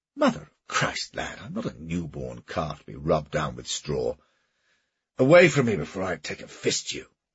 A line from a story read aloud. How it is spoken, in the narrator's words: he spluttered, showering those who attended him with bits of food and spittle